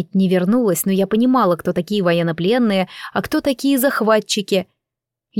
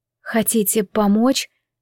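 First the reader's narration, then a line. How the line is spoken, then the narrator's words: Distrustful whisper. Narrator (Russian): с недоверием прошептала я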